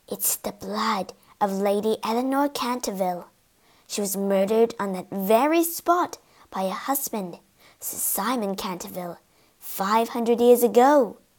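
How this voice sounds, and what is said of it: Low, hushed voice. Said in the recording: “began to speak in a low voice”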